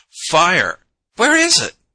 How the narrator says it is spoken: she cried

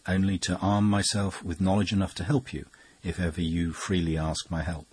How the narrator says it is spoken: he replied very gently

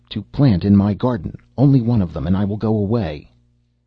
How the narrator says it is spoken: cried Death

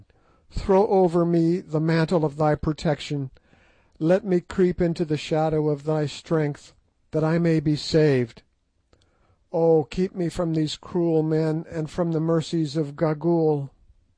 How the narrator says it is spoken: she cried

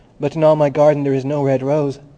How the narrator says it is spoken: cried the young Student

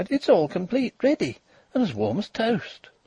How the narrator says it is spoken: she cried

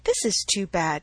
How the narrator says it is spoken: cried Emma

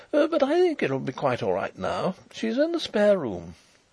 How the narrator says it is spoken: he reported with a nervous laugh

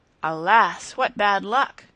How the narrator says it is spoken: cried the soldiers around him

